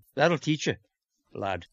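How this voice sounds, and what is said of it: Fake Irish accent. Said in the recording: “I'm going to be talking in a fake Irish accent all night long.”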